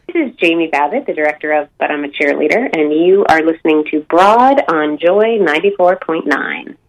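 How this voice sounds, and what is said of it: American accent. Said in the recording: “Can I say it with an American accent? ... Please. Right, yeah, please do.”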